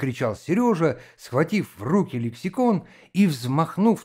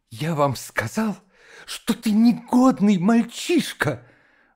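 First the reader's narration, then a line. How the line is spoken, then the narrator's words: Spiteful. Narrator (Russian): злобно выговорил Иленька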